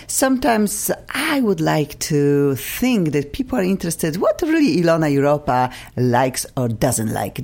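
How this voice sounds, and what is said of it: Polish Eastern European accent. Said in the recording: “Accented people like me, Polish, Eastern European accent.”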